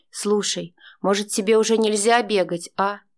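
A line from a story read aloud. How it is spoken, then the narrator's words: Plain. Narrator (Russian): спросил Витя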